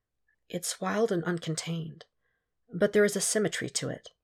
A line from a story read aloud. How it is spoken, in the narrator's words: Cal whispered